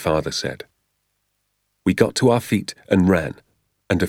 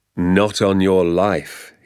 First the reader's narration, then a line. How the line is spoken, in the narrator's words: he said